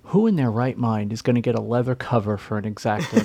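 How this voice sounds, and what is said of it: Imitates another person's voice. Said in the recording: “do an Ethan impersonation. ... this is my Ethan voice.”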